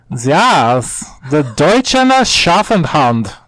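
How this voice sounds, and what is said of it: Put-on German accent. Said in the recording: “I thought for sure you were going to do a German accent. ... accurate.”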